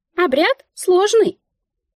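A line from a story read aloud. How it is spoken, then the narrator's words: Squeaked matter-of-factly. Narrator (Russian): пискнула Мика, якобы констатируя факт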